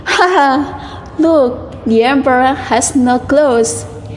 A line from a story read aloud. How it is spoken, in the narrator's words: one little boy called out